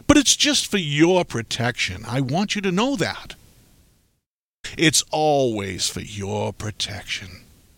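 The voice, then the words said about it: Sarcastic delivery. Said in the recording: “you can tell I'm being sarcastic”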